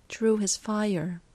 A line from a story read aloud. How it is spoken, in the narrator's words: Joyce sighs